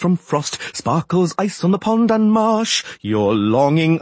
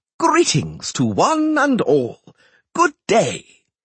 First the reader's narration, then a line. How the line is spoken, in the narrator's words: bellowed